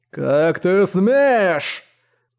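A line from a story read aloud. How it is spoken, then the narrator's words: Roar. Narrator (Russian): Взревело дымное лицо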